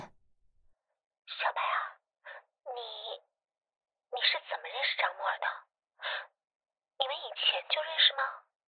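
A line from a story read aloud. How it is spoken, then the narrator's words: Fearful yet curious. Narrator (Chinese): 他的声音既带着害怕，又有忍不住的好奇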